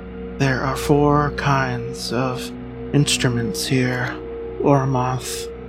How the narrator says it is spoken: whispered the voice

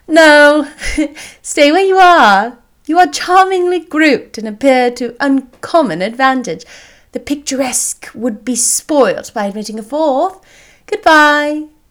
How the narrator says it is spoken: Elizabeth laughingly answered

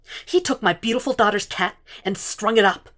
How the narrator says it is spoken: she snapped

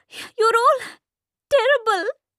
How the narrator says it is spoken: Meeta cries

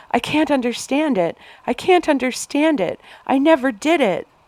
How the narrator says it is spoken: Anna sobbed

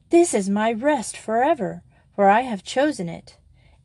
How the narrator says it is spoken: he exclaimed

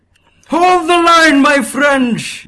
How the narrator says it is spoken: Balthazar shouted

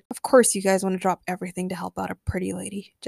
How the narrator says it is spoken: Jesse muttered, but no one heard her

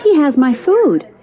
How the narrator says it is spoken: a child exclaimed

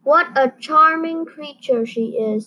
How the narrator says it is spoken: said the fox

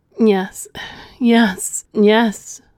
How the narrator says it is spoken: pleaded

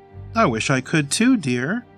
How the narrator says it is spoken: Grandma smiled cheerfully

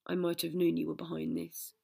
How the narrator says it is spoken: Lupin sighed

